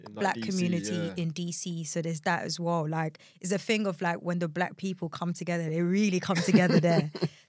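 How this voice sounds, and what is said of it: British accent. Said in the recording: “as you guys can hear, our accent from the UK”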